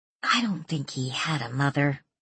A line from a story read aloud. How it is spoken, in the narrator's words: Danielle muttered